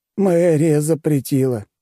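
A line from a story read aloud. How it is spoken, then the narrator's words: Offended sigh. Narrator (Russian): обиженно вздохнул он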